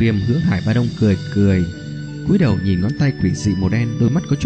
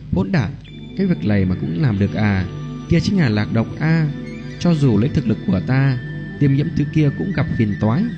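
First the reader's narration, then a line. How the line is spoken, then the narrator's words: Exasperated low scolding. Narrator (Vietnamese): bất đắc dĩ quát khẽ nói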